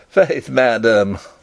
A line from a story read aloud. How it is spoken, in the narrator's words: laughed Rupert